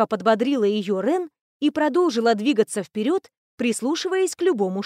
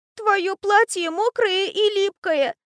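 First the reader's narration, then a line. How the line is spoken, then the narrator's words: Sister's hysterical whimpering. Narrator (Russian): Снова истерично захныкала ее сестра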